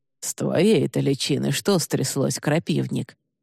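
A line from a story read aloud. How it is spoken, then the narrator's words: Hoarse, rough, mocking voice. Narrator (Russian): раздался хриплый бестелесный голос, грубый и насмешливый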